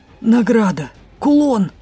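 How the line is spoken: Groaned reply. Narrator (Russian): простонал Дроу в ответ

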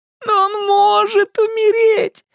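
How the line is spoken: Sobbing. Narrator (Russian): рыдала

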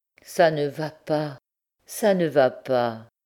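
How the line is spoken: Moaned. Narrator (French): gémit-il

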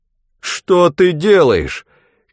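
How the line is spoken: Stunned shout. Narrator (Russian): крикнул ошарашенный Скоп

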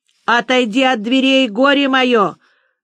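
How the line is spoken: Menacing shout, woman. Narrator (Russian): грозно кричала Анисия Матвеевна

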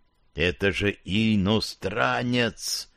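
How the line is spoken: Drawn-out, preachy. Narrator (Russian): Протянул Сивый наставительно

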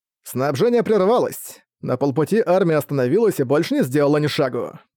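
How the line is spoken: Clear, ringing voice. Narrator (Russian): говорил герцог чистым и ясным голосом

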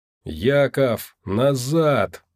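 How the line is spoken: Distorted frantic yell. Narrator (Russian): не своим голосом заорал он

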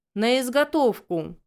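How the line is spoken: Dragon growling. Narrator (Russian): прорычал дракон

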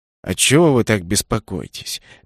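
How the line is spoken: Gentle question. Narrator (Russian): мягко спросил маг

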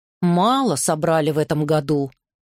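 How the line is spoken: Plain. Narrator (Russian): сказал ему один

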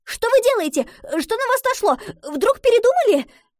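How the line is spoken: Rapid chatter. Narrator (Russian): Затараторила Гретхен

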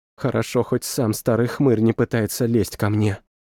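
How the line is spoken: Whisper. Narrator (Russian): прошептала Анна

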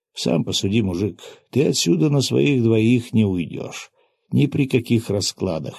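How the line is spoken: Calm statement. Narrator (Russian): спокойным тоном констатировал я

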